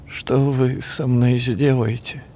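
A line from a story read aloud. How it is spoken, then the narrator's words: Boy's trembling voice. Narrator (Russian): дрожащим голосом спросил мальчик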